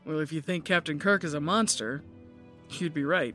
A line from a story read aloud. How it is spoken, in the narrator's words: The guy chuckled